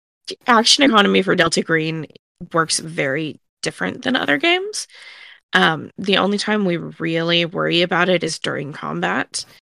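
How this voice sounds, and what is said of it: Congested voice from a cold. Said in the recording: “I am still recovering from a nasty cold. You can probably hear it in my voice today.”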